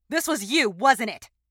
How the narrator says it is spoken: shouting

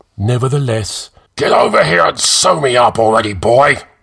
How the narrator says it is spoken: Cromdor roared

